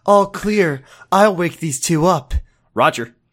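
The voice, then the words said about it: Girly imitation of another voice. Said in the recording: “Why did I do Josh voice? ... Why did his voice sound girly?”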